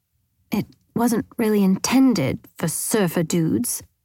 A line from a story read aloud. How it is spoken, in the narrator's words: he mumbled to himself